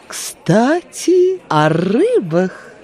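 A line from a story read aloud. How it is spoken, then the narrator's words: Slow, solemn, into ear. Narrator (Russian): Медленно и торжественно произнесла она прямо в ухо Алисе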